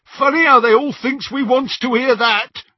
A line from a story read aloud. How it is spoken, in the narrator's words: jeered Scabia out of the shadows